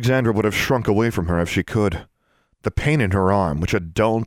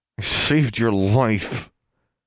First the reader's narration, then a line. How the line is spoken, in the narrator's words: said, through clenched teeth